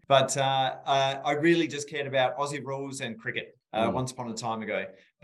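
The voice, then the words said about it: Rural South Australian accent. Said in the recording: “I grew up in rural South Australia, as you may tell from my beautiful accent.”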